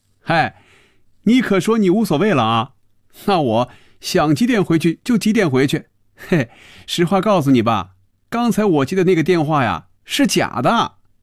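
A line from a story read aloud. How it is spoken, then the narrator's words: Laughing aloud. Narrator (Chinese): 菲比笑出了声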